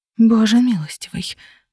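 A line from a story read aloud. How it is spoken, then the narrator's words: Chilled whisper. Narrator (Russian): прошептала я, ощущая внутри совсем другой холод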